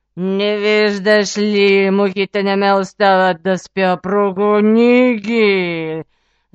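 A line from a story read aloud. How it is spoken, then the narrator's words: Spiteful growl. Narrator (Bulgarian): Злобно изръмжал Див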